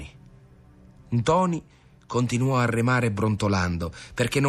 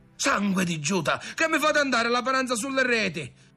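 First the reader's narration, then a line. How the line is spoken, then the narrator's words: Uncle shrieking. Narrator (Italian): cominciò a strillare lo zio Cola dal timone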